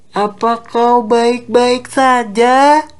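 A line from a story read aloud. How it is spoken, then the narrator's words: Shouting again. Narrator (Indonesian): ia kembali berteriak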